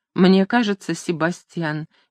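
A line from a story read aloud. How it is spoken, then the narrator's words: Soft female voice. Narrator (Russian): мягко произнесла она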